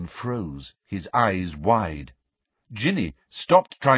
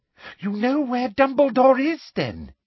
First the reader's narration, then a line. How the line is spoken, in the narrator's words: said Umbridge eagerly